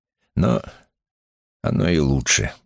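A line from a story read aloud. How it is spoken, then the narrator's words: Grumbling. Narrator (Russian): проворчал он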